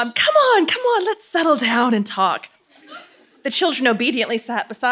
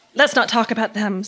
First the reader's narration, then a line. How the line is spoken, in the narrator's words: Susan said quickly